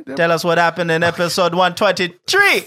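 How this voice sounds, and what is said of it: Made-up Italian-Jamaican sounding accent. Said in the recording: “what kind of accent that is, because that's actually not an accent ... I made it up ... You sound Italian and Jamaican.”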